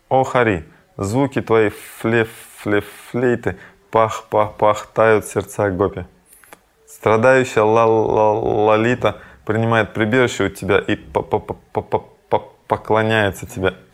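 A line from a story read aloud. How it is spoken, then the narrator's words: Drunken stammering woman. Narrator (Russian): Опьяненная от выпитого нектара маду, Радхика, заикаясь, сказала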